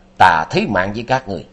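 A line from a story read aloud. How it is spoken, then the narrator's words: Roaring shout. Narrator (Vietnamese): Quang Thiên Đạt quát vàng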